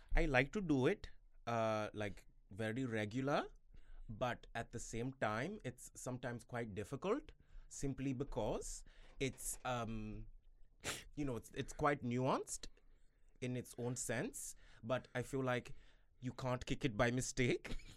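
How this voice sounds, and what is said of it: Put-on Indian accent. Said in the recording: “the Indian accent, it's like, it's very good”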